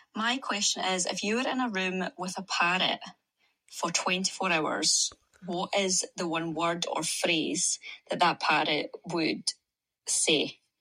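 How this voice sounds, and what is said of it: Scottish accent. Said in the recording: “man, I just love that accent. ... Love the Scottish accent.”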